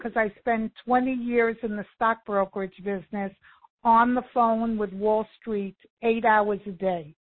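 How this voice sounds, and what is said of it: New York accent. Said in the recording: “New York... I never lost the accent... you have not lost it at all”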